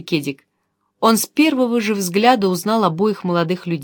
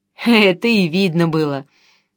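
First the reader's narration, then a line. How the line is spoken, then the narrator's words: Laughing. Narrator (Russian): засмеялся Кедик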